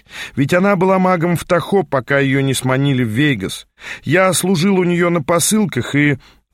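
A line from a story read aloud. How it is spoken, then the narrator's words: Bitter laughing. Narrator (Russian): горько рассмеялся наш проводник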